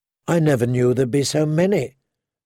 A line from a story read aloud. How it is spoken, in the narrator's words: Satin said